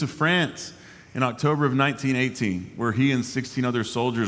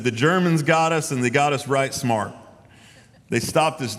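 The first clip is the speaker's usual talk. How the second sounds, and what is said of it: Put-on Tennessee accent. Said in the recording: “I'm going to read this in my best Tennessee accent that I got.”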